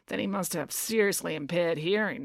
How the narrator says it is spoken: muttered Finn

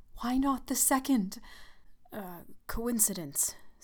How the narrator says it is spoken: stammered the old man

